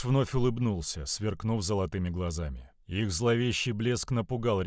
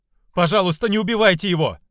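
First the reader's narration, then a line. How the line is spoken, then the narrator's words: Screamed. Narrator (Russian): закричала она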